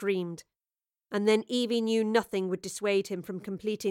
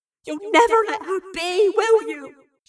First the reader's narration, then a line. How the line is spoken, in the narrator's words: sobbed